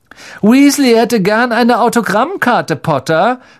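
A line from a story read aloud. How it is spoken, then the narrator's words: Mocking. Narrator (German): spottete Malfoy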